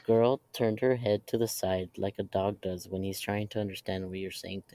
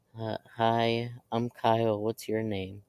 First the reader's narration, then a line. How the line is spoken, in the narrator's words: said in a shaky voice